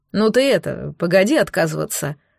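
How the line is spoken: Doctor snorting. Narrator (Russian): хмыкнул док

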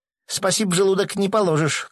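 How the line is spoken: Tearful shout. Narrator (Russian): крикнула Клава, тоже вытирая глаза

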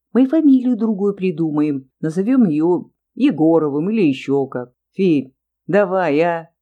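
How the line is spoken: Sudden laughter. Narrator (Russian): Вдруг рассмеялся канцелярист Иконников

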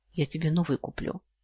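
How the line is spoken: Heartfelt promise. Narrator (Russian): проникновенным голосом пообещал

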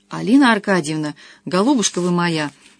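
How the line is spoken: Falsely heartfelt tone. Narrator (Russian): начал Анискин отвратительно задушевным тоном

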